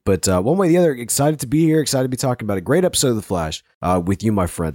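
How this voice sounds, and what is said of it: Deep, hoarse voice from a cold. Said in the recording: “I don't normally sound like this. ... What, like Barry White? ... I've been sounding something like if Savitar was wearing a Darth Vader mask ... I've been fighting off the crud ... pardon my lack of voice”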